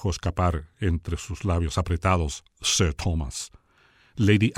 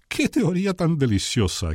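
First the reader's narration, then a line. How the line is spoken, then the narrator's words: Woman exclaiming. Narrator (Spanish): exclamó la mujer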